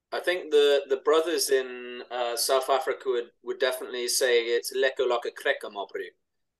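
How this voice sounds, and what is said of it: Put-on South African accent. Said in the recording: “that was a good South African accent, but also sounded a bit like Adam as well”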